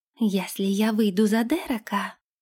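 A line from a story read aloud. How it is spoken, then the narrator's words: Whisper. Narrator (Russian): прошептала Лилейна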